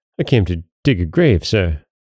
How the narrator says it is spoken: stammered Gabriel

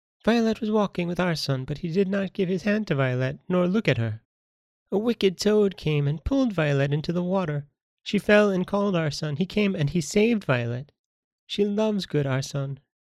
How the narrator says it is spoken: added, in a tender voice

